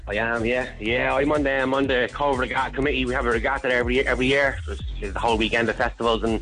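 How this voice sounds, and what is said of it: Strong Cork accent. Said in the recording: “A strong Cove accent you have. ... Very Cork.”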